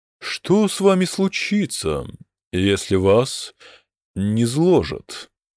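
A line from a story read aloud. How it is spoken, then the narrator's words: Plain. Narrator (Russian): спросил Танзен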